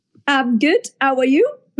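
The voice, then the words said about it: Imitates another person's accent. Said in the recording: “That was me doing your accent.”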